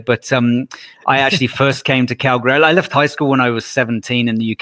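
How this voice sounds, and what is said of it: British accent. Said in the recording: “the accent shows up right away ... the accent's actually from the UK, not Australia”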